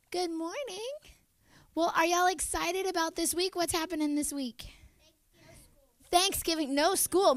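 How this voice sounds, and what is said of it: Weak, not fully recovered voice. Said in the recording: “my voice isn't all the way back from vacation yet”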